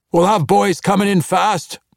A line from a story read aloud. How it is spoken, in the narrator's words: Brunner shouted to them